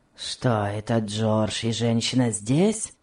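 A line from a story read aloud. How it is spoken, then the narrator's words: Grumbling question. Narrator (Russian): спросил он через минуту ворчливым тоном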